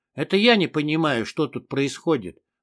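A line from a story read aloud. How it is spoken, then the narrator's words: Irritated. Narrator (Russian): раздраженно бросил я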